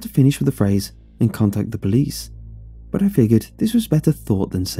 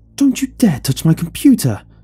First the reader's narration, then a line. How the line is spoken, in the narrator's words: screamed in my ear